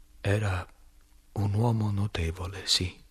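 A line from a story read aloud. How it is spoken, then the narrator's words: Unsteady voice. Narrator (Italian): dissi con voce malferma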